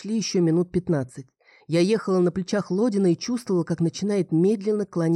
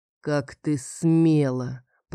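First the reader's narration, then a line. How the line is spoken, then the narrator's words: Muffled, as through wall. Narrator (Russian): проговорил глухо, словно из-за стены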